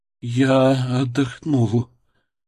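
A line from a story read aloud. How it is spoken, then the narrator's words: Strange, almost uncertain. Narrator (Russian): сказал он, и его голос звучал странно, почти неуверенно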